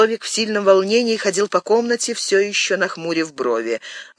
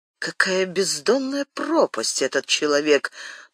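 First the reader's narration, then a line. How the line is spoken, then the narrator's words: Whispered. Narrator (Russian): прошептал король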